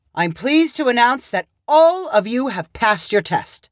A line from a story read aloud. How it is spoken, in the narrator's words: Justice called out